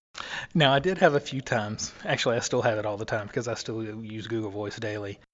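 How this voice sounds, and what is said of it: Southeast Texas accent. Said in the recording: “It doesn't work real well with a Southeast Texas accent”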